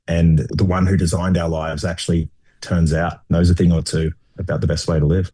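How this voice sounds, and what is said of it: Speaker with a distinctive accent. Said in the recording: “that accent. ... It's so awesome. ... has a good accent as well”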